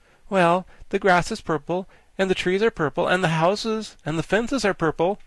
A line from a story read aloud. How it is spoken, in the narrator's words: exclaimed Tip